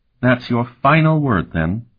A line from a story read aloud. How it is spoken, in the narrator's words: Tinian asked in a regretful tone